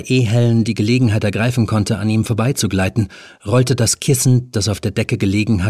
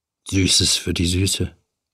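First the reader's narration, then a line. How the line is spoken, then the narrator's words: Murmur. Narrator (German): murmelte er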